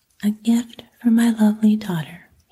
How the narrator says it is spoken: he said

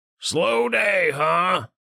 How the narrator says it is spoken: Richter grunted

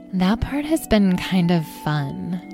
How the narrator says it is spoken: Amethyst murmured

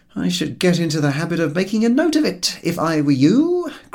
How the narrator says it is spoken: grumbled George

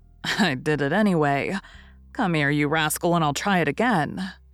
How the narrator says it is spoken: saying with a laugh

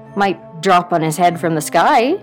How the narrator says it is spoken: said Herbert

